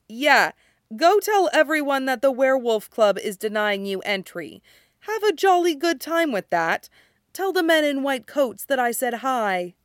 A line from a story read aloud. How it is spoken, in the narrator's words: Stiles just laughed at him and said